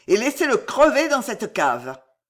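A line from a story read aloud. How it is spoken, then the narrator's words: Bellowing. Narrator (French): vociféra Henri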